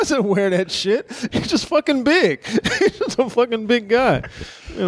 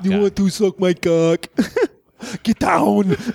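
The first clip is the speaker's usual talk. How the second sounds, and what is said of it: Poor Arnold Schwarzenegger impression. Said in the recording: “my shitty Arnold impression”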